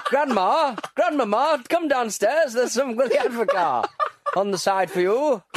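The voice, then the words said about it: Put-on Sunderland accent. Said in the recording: “Do a great impression of people from Sunderland there.”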